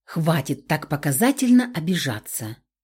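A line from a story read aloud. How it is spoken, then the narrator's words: Quiet swamp lord. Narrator (Russian): тихо проговорил взявший меня под руку болотный лорд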